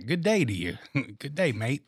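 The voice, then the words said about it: Put-on Australian accent. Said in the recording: “Sound a little Australian”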